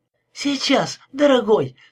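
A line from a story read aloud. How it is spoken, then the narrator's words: Sudden cry. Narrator (Russian): вскрикнула она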